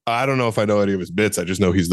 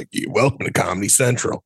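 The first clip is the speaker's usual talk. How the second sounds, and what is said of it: Good impression of Kyle Kinane. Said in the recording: “Kyle Kinane ... The voice of Comedy Central ... that's a pretty good impression”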